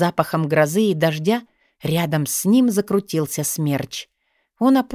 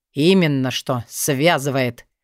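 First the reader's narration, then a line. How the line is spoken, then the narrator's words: Growling. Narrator (Russian): рыкнул Вёлвинд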